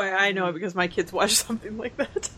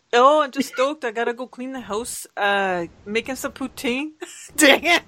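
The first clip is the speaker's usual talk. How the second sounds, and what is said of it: Put-on Canadian accent. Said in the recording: “do your best Canadian impression”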